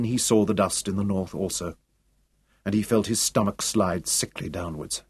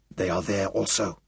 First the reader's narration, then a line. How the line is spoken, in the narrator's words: he whispered